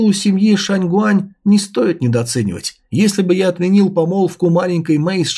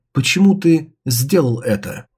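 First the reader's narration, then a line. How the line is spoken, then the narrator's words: Very calm question. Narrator (Russian): Суроу очень спокойно спросила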